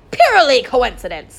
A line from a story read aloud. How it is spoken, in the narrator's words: said Kessler, cutting her off with a nervous laugh